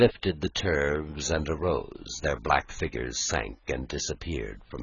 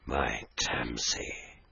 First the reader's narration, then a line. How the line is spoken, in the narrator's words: he whispered heavily